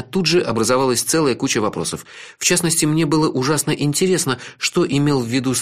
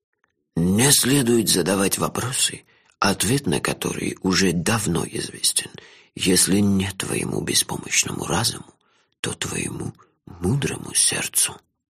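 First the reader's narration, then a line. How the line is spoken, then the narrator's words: Old man whispering. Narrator (Russian): шепнул мне старик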